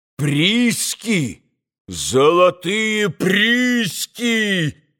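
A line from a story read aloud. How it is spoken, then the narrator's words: Loud shout, then laughter. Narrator (Russian): изо всей силы закричал Митя и закатился смехом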